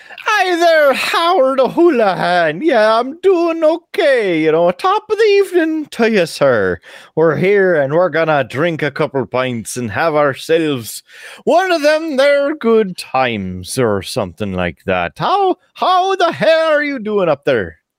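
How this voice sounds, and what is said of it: Put-on Irish accent. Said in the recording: “offending the people of Ireland with that accent”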